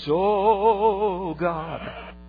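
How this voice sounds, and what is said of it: Exaggerated vibrato prayer voice. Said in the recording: “in my best vibrato voice”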